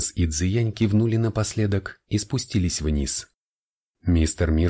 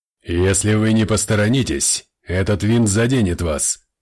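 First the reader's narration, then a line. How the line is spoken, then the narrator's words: Harsh bark. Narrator (Russian): рявкнул Ортонс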